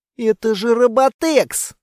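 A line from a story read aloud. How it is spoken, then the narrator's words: Hoarse rasp. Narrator (Russian): прохрипела Анна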